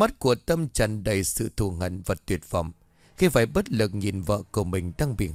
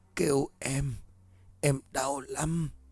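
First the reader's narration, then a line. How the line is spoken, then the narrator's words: Faint helpless moaning. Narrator (Vietnamese): rên rỉ những tiếng nói khè khẽ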